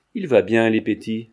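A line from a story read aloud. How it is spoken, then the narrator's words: Laughing. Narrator (French): dit en riant Lestrigou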